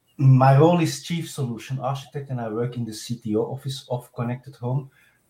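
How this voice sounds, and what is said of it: Strong Belgian accent. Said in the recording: “my rather hard accent because I'm from Belgium”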